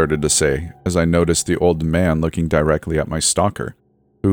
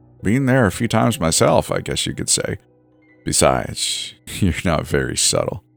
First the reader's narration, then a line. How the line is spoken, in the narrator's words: the old man said with a light chuckle